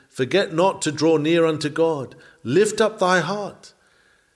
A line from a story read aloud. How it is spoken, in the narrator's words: The inward life pleaded